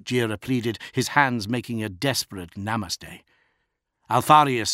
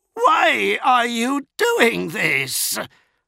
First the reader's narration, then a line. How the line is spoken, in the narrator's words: shrieked Namek Jira